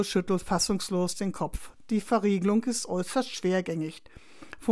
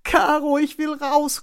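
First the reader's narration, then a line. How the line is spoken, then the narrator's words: Panicked shriek. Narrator (German): kreischt Florian nun voller Panik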